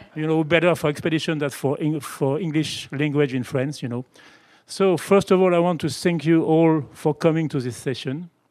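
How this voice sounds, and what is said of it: French-accented English. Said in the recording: “I am from Pono in France. That explains my bad accent.”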